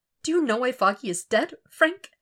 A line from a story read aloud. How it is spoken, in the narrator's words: His voice breaks before it goes down